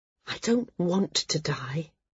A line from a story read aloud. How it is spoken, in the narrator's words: she said very quietly